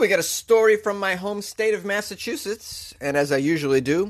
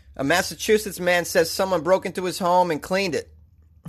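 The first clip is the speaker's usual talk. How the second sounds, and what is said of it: Put-on Boston accent. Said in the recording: “I'm gonna read the entire article in a Boston accent.”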